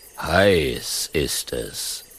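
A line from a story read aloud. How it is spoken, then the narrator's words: Lion's grumbling growl. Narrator (German): brummt der Löwe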